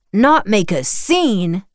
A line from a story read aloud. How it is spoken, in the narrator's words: bellowed